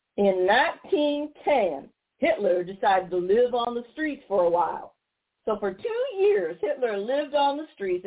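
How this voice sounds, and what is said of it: Mocking put-on Tennessee accent. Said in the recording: “I'm going to try and use a Tennessee accent ... I'm going to mock him”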